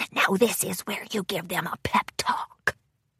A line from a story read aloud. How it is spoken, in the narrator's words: Grubber whispered in Tempest's ear